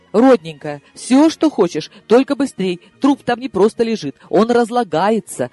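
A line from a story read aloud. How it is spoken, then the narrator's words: Fervent pleading. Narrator (Russian): жаром взмолилась я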